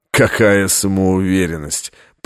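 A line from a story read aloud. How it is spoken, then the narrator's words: Contemptuous snort. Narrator (Russian): презрительно фыркнул ассасин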